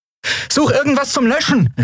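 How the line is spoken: Called out. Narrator (German): rief Andriel

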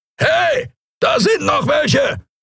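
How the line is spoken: Roaring creature voice. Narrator (German): brüllte eine Skria-Stimme

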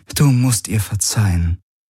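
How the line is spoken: Soft sigh. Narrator (German): Ylana seufzte leise

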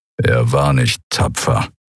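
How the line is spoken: Contemptuous growl. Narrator (German): Keru verächtlich knurren

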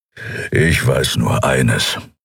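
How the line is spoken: Growling. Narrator (German): knurren

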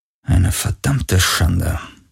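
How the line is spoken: Muttering. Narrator (German): murmelte er

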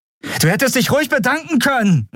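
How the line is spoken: Calling out. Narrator (German): rief sie

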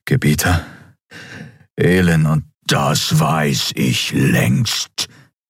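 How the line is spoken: Thundered by emperor. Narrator (German): donnerte der Kaiser

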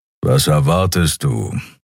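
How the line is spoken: Grumbling. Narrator (German): brummte Keru

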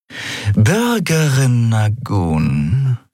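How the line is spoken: Purring. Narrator (German): schnurrte sie

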